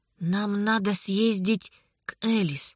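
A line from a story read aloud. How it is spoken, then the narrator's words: Quiet. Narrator (Russian): тихо сказала Анна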